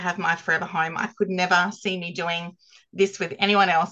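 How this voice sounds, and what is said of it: Australian accent. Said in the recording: “from Australia, in case you haven't heard that accent, ... is from Camden Park, South Australia”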